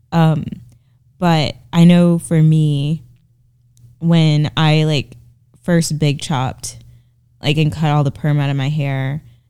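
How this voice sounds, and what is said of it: Sick, under-the-weather voice. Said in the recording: “I'm a little under the weather. That's why my voice sounds like this.”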